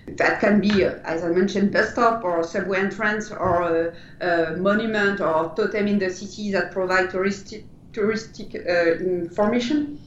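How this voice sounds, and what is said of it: French accent. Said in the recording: “from your accent and your name, you started in France”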